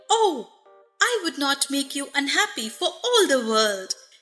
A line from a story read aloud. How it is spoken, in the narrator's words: exclaimed Dorothy